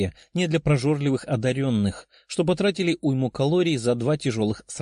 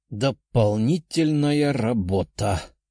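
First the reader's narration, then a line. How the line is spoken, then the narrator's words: Sighing. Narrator (Russian): вздохнул Тео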